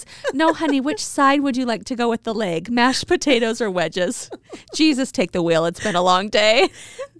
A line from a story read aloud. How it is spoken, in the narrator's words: After several moments of laughter, she says